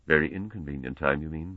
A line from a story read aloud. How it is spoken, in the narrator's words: muttered Fulham